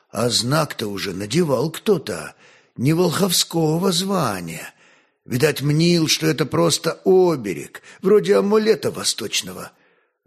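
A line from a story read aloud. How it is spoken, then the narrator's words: Quiet. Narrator (Russian): Старый кудесник тихо добавил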